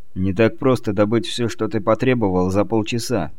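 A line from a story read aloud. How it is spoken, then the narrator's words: Grumbled. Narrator (Russian): буркнул Сагетти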